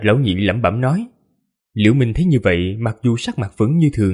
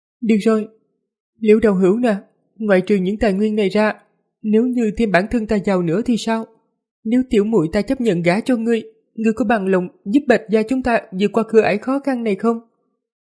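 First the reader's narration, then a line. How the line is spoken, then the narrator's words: Sighing, casual-sounding question. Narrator (Vietnamese): Bạch Yên Nhi thở dài một hơi, thoạt nghe như tùy ý hỏi Liễu Minh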